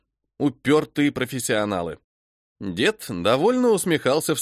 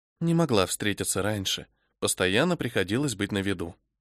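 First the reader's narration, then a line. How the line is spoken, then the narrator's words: Whispered in ear. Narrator (Russian): прошептала она мне на ухо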